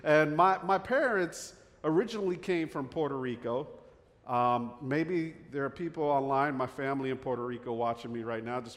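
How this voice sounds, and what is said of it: New Jersey accent. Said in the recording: “this Jersey accent”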